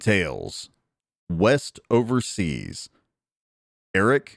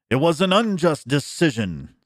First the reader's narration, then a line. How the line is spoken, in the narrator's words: cried